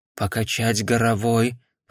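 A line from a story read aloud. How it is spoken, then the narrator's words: Whispered. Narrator (Russian): прошептал он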